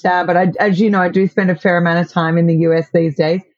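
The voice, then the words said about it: Australian accent. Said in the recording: “I'm in Australia, as everyone can probably tell by my accent.”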